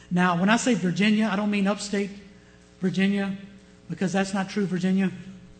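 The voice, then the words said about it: Southern American accent. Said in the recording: “I say that as a Southerner ... my accent was a little thicker then because I came straight from old Virginia”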